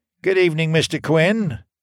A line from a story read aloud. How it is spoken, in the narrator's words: called out